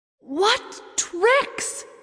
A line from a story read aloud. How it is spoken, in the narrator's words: she shouted with her magic as loudly as she could